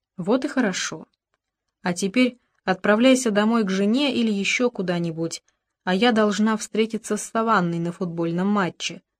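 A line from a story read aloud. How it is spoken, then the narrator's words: Plain. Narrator (Russian): сказала она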